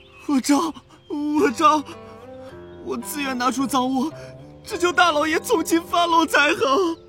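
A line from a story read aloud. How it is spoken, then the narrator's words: Servant desperately pleading. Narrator (Chinese): 随从苦苦哀求说道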